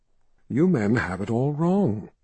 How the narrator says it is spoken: she said in a throaty voice

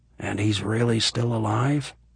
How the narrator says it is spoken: he asked, quietly enough that only Eleanor could hear

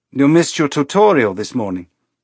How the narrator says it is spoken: he said, his voice pleasant and non-judgmental and false as a mask

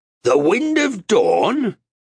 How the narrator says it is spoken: He cried in disbelief

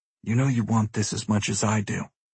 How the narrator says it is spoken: I whisper in her ear

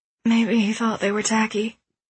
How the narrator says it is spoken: groaned Lionette

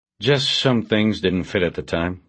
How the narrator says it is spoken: Bosch said

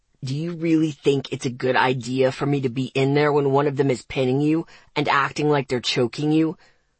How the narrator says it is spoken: he growled softly, his voice thick

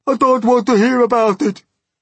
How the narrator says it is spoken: shrieked the poor blind earthworm

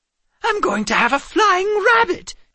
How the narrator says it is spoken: Calvin exclaimed

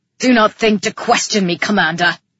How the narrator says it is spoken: Calyx snapped

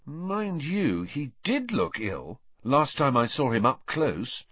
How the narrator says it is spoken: said Harry slowly, still reading the story

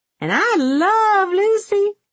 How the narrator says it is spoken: Loco Coco cackled

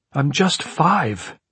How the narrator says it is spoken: he cried

